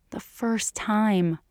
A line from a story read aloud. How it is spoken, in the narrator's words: she repeated, and dropped her voice, as if Julia really could understand them